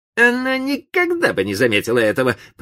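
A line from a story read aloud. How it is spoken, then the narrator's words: Grumbling under breath. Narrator (Russian): проворчал он про себя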